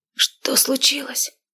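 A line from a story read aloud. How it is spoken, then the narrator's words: Hoarse whisper. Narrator (Russian): хрипло прошептала она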